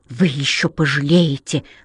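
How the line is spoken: Hissing. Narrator (Russian): прошипела сирена

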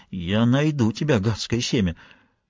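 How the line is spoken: Muttering under breath. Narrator (Russian): бормоча себе под нос

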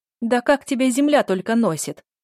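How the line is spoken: Woman shouting loudly. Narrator (Russian): выкрикнула какая-то женщина и громко повторила

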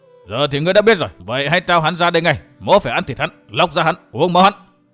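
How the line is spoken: Angry shout. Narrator (Vietnamese): Hắc phán quan tức giận quát

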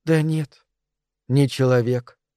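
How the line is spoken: Sighing. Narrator (Russian): вздохнула мисс Фрум

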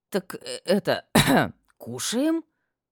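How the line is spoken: Choked, strained words. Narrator (Russian): Сглотнув вязкий ком в горле, выдавила

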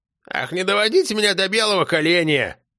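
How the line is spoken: Grumbled. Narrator (Russian): проворчала баба Сима

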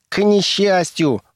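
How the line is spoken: Shriek. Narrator (Russian): взвизгнул он

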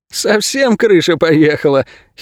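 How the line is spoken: Giggling. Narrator (Russian): хихикнул Инго

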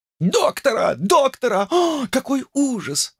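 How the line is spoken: Crowd shouting. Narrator (Russian): закричала публика

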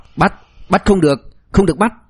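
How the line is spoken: Frightened, then angry shouting. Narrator (Vietnamese): Ngụy Tuấn Chí dọa đến sắc mặt tái nhợt, liên tiếp hô to hai tiếng bắt người, lại lập tức tức giận quát

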